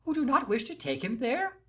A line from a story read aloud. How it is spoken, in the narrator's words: exclaimed the king